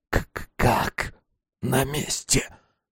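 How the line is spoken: Hoarse croak. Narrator (Russian): прохрипел он

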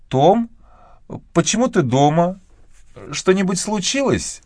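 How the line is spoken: Quiet, faltering voice. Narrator (Russian): Мэгги говорила тихим, прерывистым голосом

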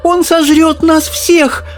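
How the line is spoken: Shouting. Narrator (Russian): закричала миссис Бакет

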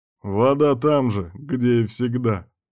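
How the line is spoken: Chuckling. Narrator (Russian): хохотнув, сказал Кирк

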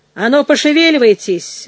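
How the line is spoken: Rough. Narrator (Russian): грубо сказал он

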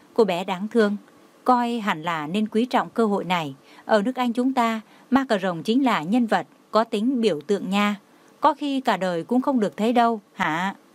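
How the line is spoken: Pitying, heavy sigh. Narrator (Vietnamese): Bà sinh lòng thương cảm, đau lòng nặng nề thở dài một hơi, nói

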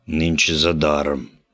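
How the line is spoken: Hoarse curt remark. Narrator (Russian): хрипло бросил Биндер

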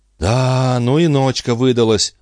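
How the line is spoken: Sigh. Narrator (Russian): вздохнула миссис Ситвуд

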